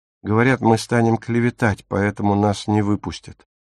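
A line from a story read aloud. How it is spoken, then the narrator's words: Glum. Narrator (Russian): уныло поведала Дагмар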